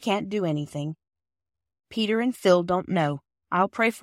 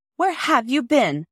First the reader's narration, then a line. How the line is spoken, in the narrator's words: shouted Peter from the top of the yard wall